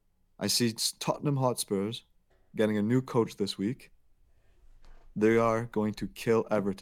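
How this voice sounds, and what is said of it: Poor put-on British accent. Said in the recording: “that abysmal British accent that you just put on ... I clearly didn't a great impression.”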